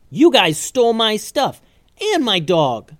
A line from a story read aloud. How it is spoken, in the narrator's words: yelled Calvin